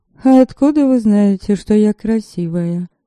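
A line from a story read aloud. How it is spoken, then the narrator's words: Lazy retort. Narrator (Russian): лениво парировала Лиля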